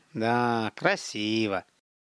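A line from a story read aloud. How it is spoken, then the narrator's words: Sighing. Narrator (Russian): Михаил вздохнул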